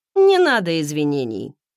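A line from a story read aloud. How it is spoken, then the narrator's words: Dry reply. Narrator (Russian): сухо отозвался он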